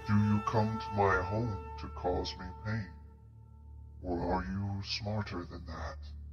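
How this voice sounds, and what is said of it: Deep character voice. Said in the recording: “You all hear a deep voice coming from all around you”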